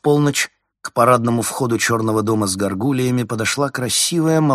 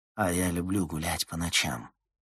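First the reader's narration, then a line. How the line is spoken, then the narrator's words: Hoarse. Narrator (Russian): хрипло сказала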